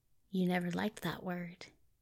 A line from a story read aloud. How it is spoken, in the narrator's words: Aziraphale said very quietly